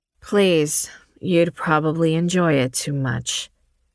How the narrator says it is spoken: Addie replied, her voice low and lethal

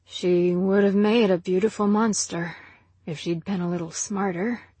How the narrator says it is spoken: said Jack quietly

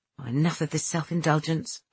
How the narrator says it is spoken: I muttered

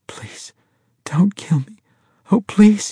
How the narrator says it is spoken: she gasped

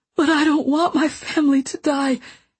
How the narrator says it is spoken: he gasped

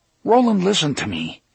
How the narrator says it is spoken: Eddie said earnestly

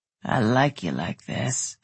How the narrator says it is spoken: he rumbled

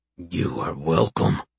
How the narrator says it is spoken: Tiny rumbled, smiling

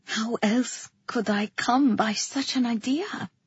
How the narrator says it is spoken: I asked, my voice hushed

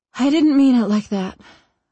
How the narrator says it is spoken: I sigh

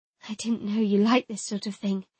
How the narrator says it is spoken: I said a little breathlessly

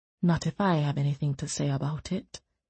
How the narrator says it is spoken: Eard said, too softly for her to hear

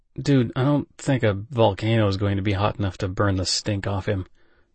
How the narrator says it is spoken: I muttered

